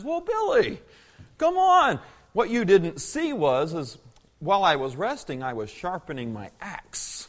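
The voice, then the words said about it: Wise old man voice. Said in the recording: “in his wise voice”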